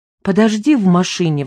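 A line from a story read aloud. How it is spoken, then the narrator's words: Pleading. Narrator (Russian): взмолилась Ксюша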